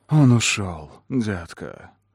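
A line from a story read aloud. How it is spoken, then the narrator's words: Whisper in ear. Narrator (Russian): прошептал Кэллум мне в ухо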